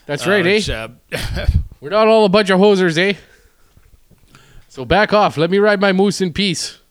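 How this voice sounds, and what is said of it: Put-on Manitoba Canadian accent. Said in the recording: “that's the Manitoba accent a little bit”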